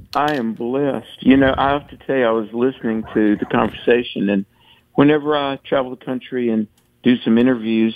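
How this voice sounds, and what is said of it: Southern American accent. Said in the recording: “frequently they will comment that I have a Southern accent. And I say, well, I'm from the South. ... She said, "Whoa, you have a Southern accent." And I said, "Guilty."”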